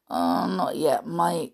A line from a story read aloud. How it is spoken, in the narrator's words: grunted